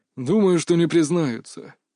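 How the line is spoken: Heavy sigh, old man. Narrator (Russian): тяжело вздохнул дед

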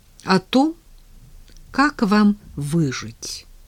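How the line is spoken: Calm explanation. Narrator (Russian): спокойно объяснила Надя

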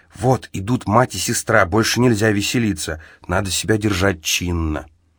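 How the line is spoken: Whisper. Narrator (Russian): Намия мне шепнула

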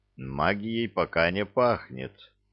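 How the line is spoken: Young man muttering. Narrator (Russian): пробормотал юноша

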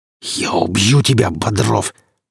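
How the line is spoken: Hissed. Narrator (Russian): прошипел

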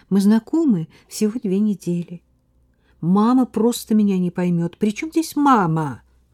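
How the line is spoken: Exclamation. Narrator (Russian): воскликнул Слава

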